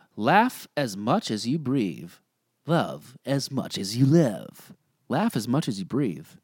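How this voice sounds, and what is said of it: Usual voice. Nothing is said of it.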